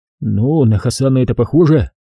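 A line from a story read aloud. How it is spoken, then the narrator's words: Low voice. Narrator (Russian): произнес я вполголоса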